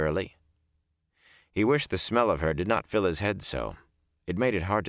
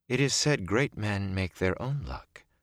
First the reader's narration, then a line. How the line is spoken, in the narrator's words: Celine said softly